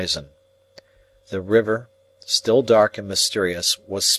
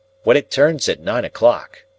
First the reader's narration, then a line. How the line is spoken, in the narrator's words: said Herbert cheerfully